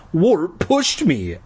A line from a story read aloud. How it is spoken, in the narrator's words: I cried